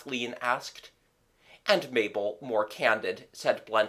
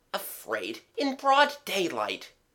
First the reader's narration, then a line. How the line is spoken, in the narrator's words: Gerald sneered